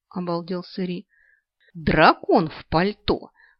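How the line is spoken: Barked in face. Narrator (Russian): рявкнула я ему в лицо

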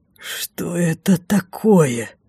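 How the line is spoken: Furious hoarse rasp. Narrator (Russian): прохрипел, впившись в меня бешеным взглядом

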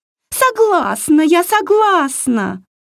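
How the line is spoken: Mermaid wailing. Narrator (Russian): завопила русалка

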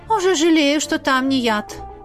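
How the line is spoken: Sigh. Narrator (Russian): вздохнула Лизавета

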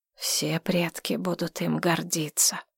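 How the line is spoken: Quiet. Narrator (Russian): тихо добавил Джоу Ян

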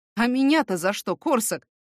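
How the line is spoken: Snort. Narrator (Russian): хмыкнул

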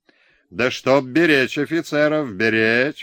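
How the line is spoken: Shouted. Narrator (Russian): выкрикнул он

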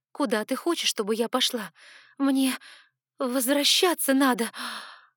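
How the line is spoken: Frightened gasp. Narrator (Russian): Испуганно охнула я, вспомнив, наконец, что это не то место, где я помню себя

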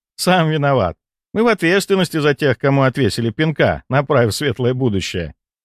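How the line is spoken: Laughing. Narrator (Russian): рассмеялся Валентина

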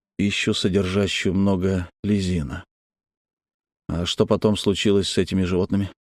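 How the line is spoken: Mumbling. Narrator (Russian): Грант пробормотал

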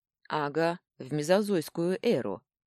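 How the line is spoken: Gloomy reply. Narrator (Russian): мрачно ответил он

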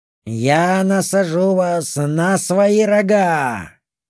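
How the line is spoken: Mocking roar. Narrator (Russian): проревел один из фавнов свою издевку

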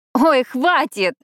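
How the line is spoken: Helpless burst of laughter. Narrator (Russian): против воли расхохоталась Пиппа

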